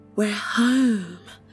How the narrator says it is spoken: Rose whispered to Emma and to herself

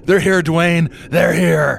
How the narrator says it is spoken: screamed to Dwayne

